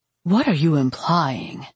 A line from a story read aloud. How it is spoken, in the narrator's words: Simon asked, his voice icy